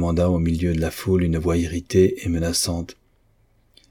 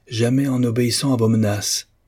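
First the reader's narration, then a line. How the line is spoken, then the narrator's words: Exclaiming. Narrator (French): s'écria Mr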